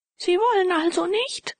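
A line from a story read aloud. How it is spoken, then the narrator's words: Old man shouting after. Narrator (German): schrie ihm der alte Major nach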